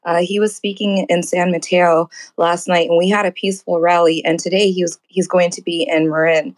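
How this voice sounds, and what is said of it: Hoarse, strained voice. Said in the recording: “I was screaming a lot last night ... So I'm losing my voice from last night.”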